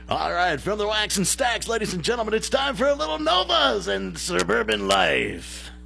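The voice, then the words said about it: Vintage radio DJ voice. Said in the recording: “in your best vintage DJ voice”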